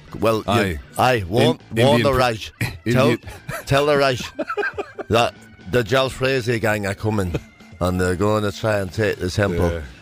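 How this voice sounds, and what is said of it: Put-on Indian Calcutta accent. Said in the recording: “Can't you hear my Calcutta accent?”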